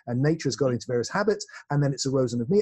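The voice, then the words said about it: English West Country accent. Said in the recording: “I speak with a West Country accent from England”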